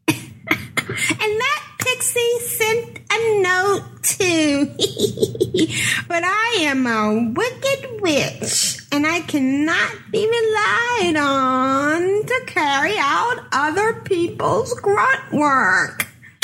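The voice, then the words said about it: Wicked witch character voice. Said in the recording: “Oh, this is Hagatha. Oh, I don't know if I can do Hagatha. ... Do the voice. ... That's just using normal voice. Put on a special voice.”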